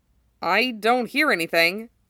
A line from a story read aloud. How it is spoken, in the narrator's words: Zack informed him uneasily